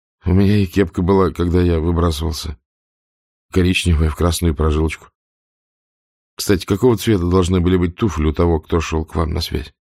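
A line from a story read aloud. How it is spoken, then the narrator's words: Plain. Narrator (Russian): спросил Вихрь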